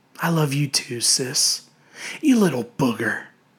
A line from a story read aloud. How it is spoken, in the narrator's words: Grinning, Marty whispered back